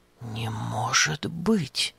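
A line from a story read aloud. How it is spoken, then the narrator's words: Puzzled whisper. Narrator (Russian): озадаченно прошептал Епафраз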